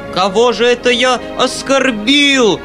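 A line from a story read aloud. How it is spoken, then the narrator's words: Loud wailing. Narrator (Russian): вопил Фома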